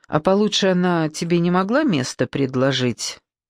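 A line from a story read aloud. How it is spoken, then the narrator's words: Gloomy. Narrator (Russian): мрачно сказала Саша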